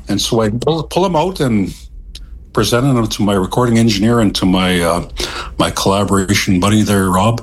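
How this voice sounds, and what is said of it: Deep baritone male voice. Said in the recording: “my voice is baritone and I have a deep voice.”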